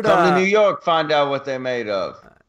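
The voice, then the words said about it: Put-on New York accent. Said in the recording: “Slid into my Boston accent ... was that your New York accent? ... That was my New York.”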